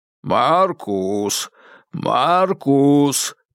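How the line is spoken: Hoarse bass shout. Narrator (Russian): прокуренным басом кричал полицейский

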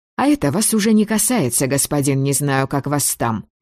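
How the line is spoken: Snapping retort. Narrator (Russian): огрызнулась

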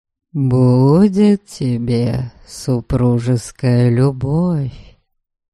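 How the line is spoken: Promising drawl. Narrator (Russian): Многообещающим тоном протянул он

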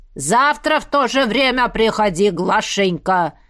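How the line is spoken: Shouted after someone. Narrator (Russian): крикнул ей вслед староста

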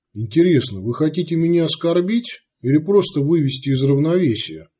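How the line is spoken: Calm. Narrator (Russian): спокойно сказал Сварог

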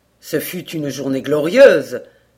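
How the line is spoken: Youthful enthusiastic exclamation. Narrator (French): s'écria Hayward dans un accès d'enthousiasme juvénile

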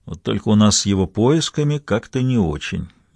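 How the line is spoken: Sighing. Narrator (Russian): вздохнул Амброуз

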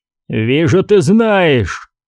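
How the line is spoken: Growl. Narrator (Russian): прорычал Аркенджо

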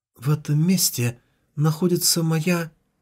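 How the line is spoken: Barely audible. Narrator (Russian): она едва слышно произнесла

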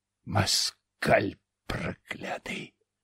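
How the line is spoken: Hiss. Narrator (Russian): зашипел Глазов

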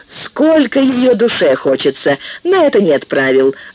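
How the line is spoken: Laughing. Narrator (Russian): засмеялась Акоги

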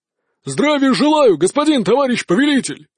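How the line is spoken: Barked in reply. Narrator (Russian): гаркнули в ответ

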